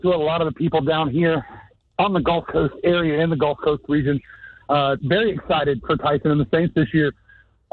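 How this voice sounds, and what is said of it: Out of breath. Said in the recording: “Why are you so out of breath? ... Running around doing coolers and water”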